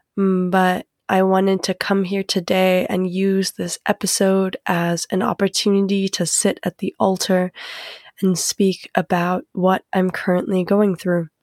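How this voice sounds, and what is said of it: Sick, congested sinus voice. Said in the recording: “I sound a bit sick today. I have sinusitis”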